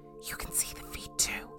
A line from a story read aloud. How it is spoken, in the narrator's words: She whispered to me